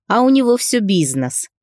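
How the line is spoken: Snide smirk. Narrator (Russian): ехидно ухмыльнулся парень

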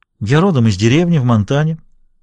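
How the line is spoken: Deliberately indifferent tone. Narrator (Russian): начала она нарочито равнодушным тоном

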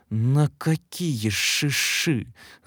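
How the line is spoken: Angry hiss. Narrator (Russian): зло зашипела Мария Степановна

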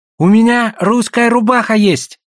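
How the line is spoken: Exclaiming. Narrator (Russian): воскликнул Гольд

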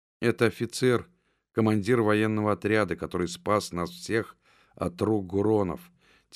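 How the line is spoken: Quiet reply. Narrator (Russian): тихо ответила сестра

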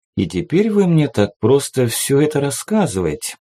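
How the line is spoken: Thoughtful. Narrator (Russian): задумчиво проговорил монарх

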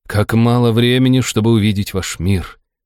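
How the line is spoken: Sighing. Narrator (Russian): вздохнул остроухий

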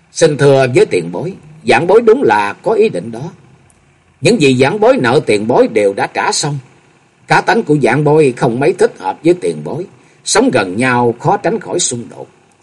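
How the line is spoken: Smiling. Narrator (Vietnamese): Nhậm Sương Bạch mỉm cười nói

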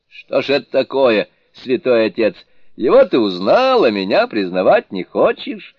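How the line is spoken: Laughing question. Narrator (Russian): смеясь спросил Сунь-Укун

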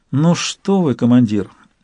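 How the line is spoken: Sad wry smirk. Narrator (Russian): все так же грустно усмехнулась Канила

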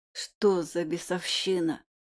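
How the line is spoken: Hoarse wheeze. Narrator (Russian): прохрипел я

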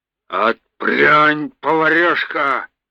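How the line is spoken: Growled. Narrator (Russian): рыкнул боцман

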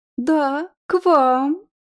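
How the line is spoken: Languid babbling. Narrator (Russian): пролепетала томным голоском

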